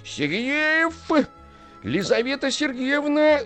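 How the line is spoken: Shouting. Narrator (Russian): закричал он

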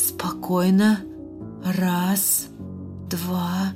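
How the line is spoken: Old man whispering. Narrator (Russian): зашептал старик

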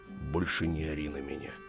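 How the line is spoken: Quiet. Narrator (Russian): негромко сказал Федор

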